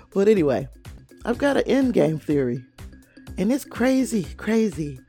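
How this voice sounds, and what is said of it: Congested, stuffy voice. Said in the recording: “I am super congested... I am so sorry that I sound like a head case”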